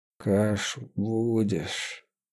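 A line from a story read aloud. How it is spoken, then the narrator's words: Quiet question. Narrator (Russian): тихо спросил Няга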